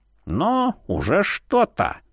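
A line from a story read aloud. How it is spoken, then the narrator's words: Grumbled. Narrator (Russian): Буркнул трепясток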